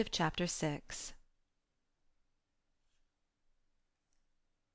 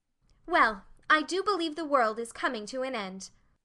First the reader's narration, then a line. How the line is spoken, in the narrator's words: Meg exclaimed